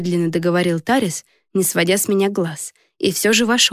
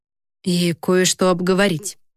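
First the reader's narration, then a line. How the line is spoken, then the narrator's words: Uncertain addition. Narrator (Russian): добавил как-то неуверенно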